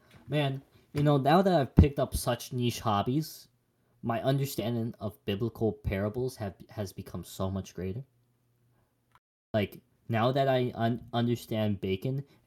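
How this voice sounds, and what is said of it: Accent dropping final -ing sounds. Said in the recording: “I don't pronounce my I and G's. I don't know where this accent came from.”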